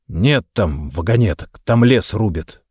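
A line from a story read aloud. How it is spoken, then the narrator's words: Grumble, anger subsiding. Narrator (Russian): отходя от вспышки ярости, буркнул я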